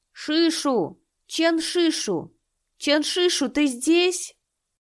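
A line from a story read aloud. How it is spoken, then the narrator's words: Young man's voice abruptly cut off. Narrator (Russian): голос юноши резко оборвался, будто у него вырвали язык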